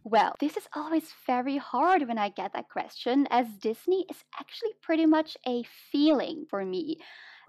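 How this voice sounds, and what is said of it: Mixed British and American English accent. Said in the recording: “my accent is actually a mix between those ... sometimes some words I pronounce in British English and sometimes in American English ... your amazing accent”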